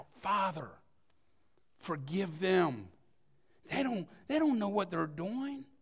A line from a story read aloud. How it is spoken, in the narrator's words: he cried out